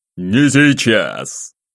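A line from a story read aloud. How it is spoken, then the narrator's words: Barked. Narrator (Russian): рявкнул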